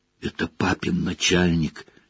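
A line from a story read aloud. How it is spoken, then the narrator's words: Barely audible whisper. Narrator (Russian): чуть слышно шепнул Рон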